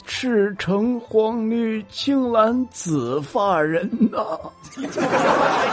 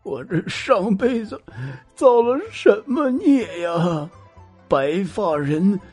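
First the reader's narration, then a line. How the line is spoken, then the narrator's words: Elderly father, crying. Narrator (Chinese): 他年迈的父亲哭着说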